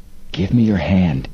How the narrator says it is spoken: Frank whispered

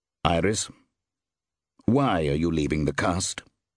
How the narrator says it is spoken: he demanded flatly

